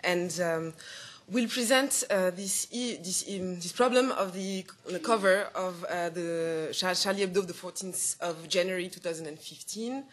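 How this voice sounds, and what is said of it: French accent speaking English. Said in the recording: “my mother tongue is French, so sorry for the accent”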